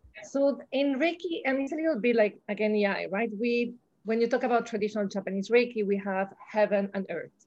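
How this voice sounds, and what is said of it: Noticeable non-native English accent. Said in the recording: “Sofia Vergara on steroids ... if my accent become too sick”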